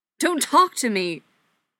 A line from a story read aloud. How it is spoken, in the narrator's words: Patrick yelled